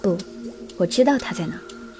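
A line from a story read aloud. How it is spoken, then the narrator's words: Whispered in ear. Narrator (Chinese): 幽冥低声在特雷雅的耳边说道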